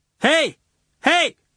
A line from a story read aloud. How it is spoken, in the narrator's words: shouts the drunk lad